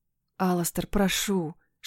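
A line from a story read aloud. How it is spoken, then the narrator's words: Pleading whisper. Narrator (Russian): шепнула я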